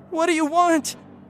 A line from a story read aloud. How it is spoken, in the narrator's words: I screamed